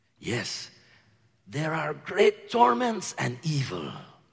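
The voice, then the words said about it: Slack rural accent like Antonio Banderas. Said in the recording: “his slack accent of a rural man, hopefully somewhat sounding like Antonio Banderas”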